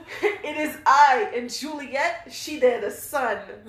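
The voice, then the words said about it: Weak put-on Jersey accent. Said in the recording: “I don't have a good Jersey accent.”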